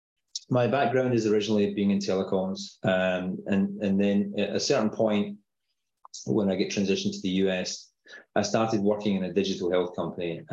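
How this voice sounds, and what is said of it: Scottish accent. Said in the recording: “I have an unusual accent. So I'm originally from uh, just outside Glasgow, a town called Paisley”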